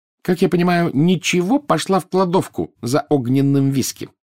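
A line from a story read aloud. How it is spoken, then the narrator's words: Snide, sarcastic. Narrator (Russian): ехидно заметила Гермиона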